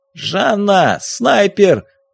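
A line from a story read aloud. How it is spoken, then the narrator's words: Yelling. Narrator (Russian): заорал Сергей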